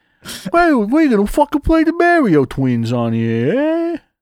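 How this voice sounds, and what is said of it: Put-on New York accent. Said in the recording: “as like a fucking New York accent”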